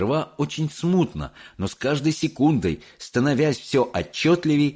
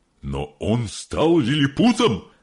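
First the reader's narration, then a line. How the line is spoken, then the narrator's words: Exclaiming. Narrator (Russian): воскликнул мистер Телек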